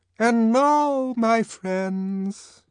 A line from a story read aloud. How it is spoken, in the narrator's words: said the arch-community songster of Canterbury in that beautiful ringing voice